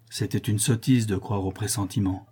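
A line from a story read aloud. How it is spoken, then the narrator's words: Troubled voice. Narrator (French): dit d'une voix troublée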